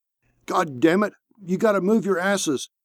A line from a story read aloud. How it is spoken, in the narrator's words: shouted Merriweather